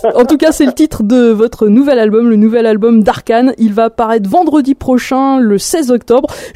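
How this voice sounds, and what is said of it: Speaks French with an accent. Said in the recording (French): “excuse mon accent”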